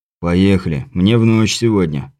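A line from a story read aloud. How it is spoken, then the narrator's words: Grumbling mutter. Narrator (Russian): пробурчал крепыш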